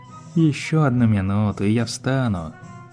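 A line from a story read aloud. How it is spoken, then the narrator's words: Sleepy. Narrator (Russian): сонно произнес Спайк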